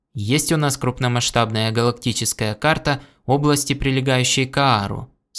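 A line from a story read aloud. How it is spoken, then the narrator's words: Plain. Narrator (Russian): спросил Гордон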